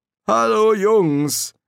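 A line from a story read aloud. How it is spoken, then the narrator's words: Calling out. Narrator (German): rief Crowley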